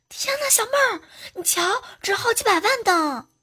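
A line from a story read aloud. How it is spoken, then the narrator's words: Surprised shout. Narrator (Chinese): 猴子惊讶的就喊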